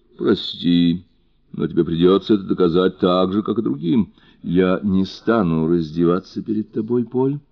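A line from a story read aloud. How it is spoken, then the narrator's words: Calm. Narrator (Russian): спокойно проговорила она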